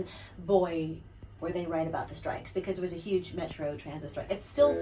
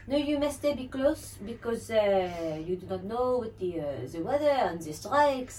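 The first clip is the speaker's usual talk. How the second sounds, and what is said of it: Bad put-on French accent. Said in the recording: “My bad French accent”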